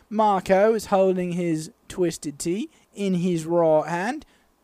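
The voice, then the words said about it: Put-on British accent. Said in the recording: “if you have to commentate it in a British accent, you have to say, what's all this?”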